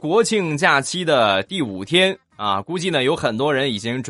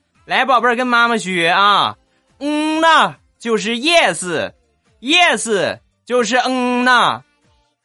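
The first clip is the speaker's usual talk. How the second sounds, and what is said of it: Imitated Northeastern Chinese accent. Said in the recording (Chinese): “听口音呢，应该是东北人”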